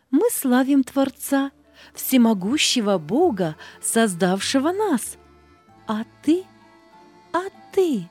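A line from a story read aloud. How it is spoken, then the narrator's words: Joyful chorus. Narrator (Russian): Солнышко, травка, птички радостно говорили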